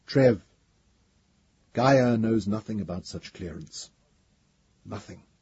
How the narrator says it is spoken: Dom said solemnly

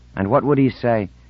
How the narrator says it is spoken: said Insigne bitterly

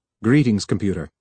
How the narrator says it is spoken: said Harlan

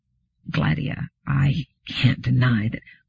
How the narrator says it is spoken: Bailey said hesitantly

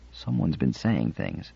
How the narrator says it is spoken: Binet whispered

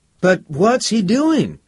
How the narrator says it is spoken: cried out Anthony

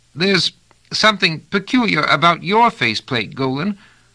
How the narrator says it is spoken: went on rather squeakily

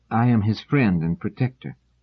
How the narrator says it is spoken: Dors said calmly

